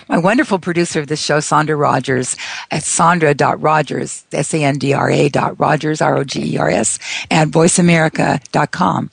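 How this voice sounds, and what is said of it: Hoarse, strained, failing voice. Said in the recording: “I'm losing my voice here.”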